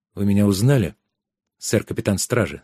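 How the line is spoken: Plain. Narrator (Russian): спросил Трикс

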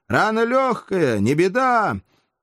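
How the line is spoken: Loud shout. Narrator (Russian): громко крикнул

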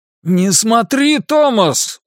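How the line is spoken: Sudden shout, father. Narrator (Russian): вдруг прокричал отец

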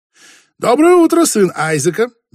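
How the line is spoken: Cheerful greeting. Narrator (Russian): весело приветствовал он друга

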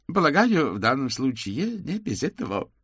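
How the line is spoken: Laughing. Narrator (Russian): засмеялся маркиз

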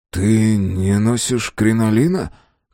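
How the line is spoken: Hoarse remark. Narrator (Russian): хрипло заметил Мэлори

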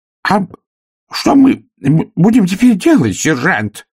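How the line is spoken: Wailing shout. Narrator (Russian): завопил Колумб

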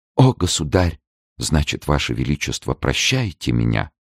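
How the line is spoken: Faint, weak whisper. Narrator (Russian): в которых едва теплилась жизнь, и прошептала

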